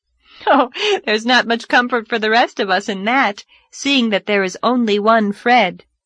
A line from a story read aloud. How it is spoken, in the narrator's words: laughed Anne